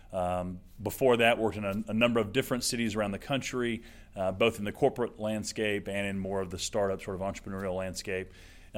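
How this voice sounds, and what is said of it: Alabama accent. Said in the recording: “I'm not from Oklahoma, as you can probably tell by the accent. ... born in Alabama”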